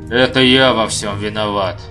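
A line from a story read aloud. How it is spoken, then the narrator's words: Grumbling. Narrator (Russian): проворчал Абер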